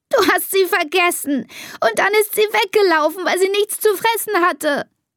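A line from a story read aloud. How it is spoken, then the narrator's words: Sobbing. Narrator (German): schluchzt Elisa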